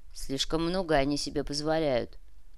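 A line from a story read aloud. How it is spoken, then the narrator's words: Grumbling. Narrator (Russian): проворчал старшина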